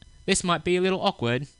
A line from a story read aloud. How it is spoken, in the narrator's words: he said in an English accent